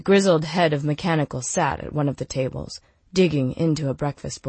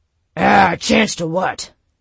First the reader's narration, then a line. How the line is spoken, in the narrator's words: Knox growled